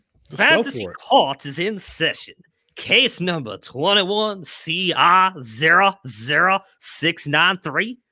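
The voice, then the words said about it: Attempted Southern US accent. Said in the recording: “I don't know how to do a Southern accent. ... God, this is gonna be so bad.”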